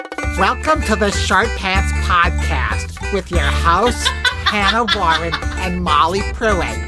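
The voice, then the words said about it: Imitates another person's voice. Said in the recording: “I can do my impression of of of you doing it ... Where did I come from New Jersey?”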